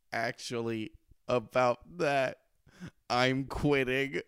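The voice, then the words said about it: Flat, emotionless delivery. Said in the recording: “in an emotionless voice”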